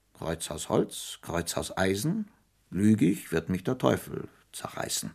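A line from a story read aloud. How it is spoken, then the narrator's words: Clear voice over rain. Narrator (German): sprach, begleitet vom Rauschen des Regens, mit klarer Stimme die Formel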